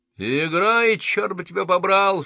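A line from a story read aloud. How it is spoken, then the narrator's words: Sobbing shout. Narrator (Russian): всхлипывая, крикнул он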